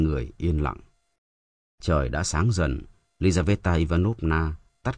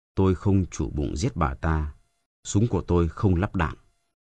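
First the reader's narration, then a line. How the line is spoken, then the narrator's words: Cold reply. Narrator (Vietnamese): Hắn lạnh lùng trả lời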